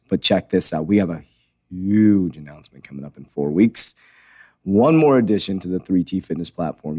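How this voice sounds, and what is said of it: Strained, subdued voice. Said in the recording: “you may hear my voice a little down. I have a voice issue going on ... I think I have strained my vocal cords ... I keep losing my voice ... I'm just trying to conserve my voice”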